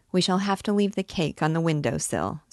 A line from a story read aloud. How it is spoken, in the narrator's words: said Oudarde